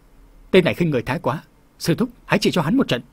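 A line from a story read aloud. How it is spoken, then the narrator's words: Shout. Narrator (Vietnamese): Dực Long Phùng Duệ quát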